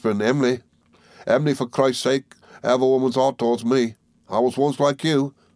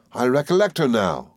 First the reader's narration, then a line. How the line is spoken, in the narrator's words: cried I